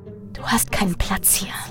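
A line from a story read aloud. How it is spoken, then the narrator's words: Figure whispering. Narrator (German): flüsterte eine der Gestalten und formte Worte, die tief in mir Widerhall fanden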